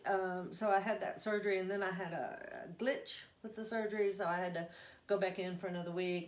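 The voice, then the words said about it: Texas twang. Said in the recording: “I'm going to do my twang for y'all. It's coming out. ... Your Texas twang.”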